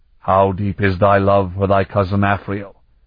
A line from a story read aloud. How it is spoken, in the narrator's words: the profound voice said sharply